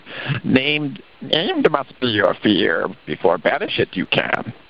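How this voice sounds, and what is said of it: Yoda character voice impression. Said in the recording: “can't do a good Yoda impression, but let me try here ... my best Yoda imitation”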